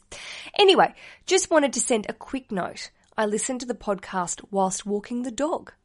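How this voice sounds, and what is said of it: Slightly rough Australian accent. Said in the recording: “listen to an Australian accent ... sometimes I think I sound, as we would say, a little ochre, a little rough around the edges”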